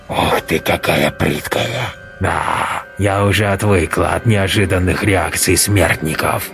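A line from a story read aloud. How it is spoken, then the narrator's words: Hissed. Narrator (Russian): Прошипела кукла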